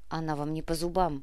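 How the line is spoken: Grumbling mutter. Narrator (Russian): буркнула Инга

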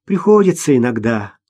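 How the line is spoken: Sighing. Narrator (Russian): вздохнула Маша

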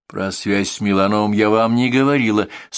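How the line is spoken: Dry. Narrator (Russian): сухо произносит Лиза

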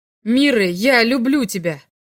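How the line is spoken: Shouted. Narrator (Russian): крикнул Торн

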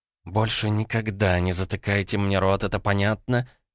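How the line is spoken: Angry hiss. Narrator (Russian): зашипела

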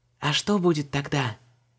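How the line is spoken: Hesitant whisper. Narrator (Russian): Нерешительно прошептала Вон, стараясь, чтобы ее не услышал ужасный возница

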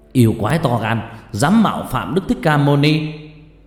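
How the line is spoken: Angry shout. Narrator (Vietnamese): một thiên tướng hét lên

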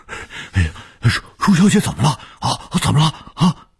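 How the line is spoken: Urgent old man. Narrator (Chinese): 卢老头急切地说

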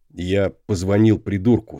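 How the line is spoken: Plain. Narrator (Russian): сказал Дейв

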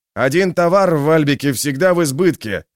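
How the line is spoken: Shout into ear. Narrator (Russian): прокричал Валимир ей в ухо

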